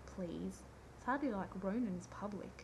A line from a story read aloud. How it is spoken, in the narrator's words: Rodney scoffed